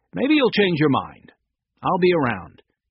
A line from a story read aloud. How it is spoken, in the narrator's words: Willett brightly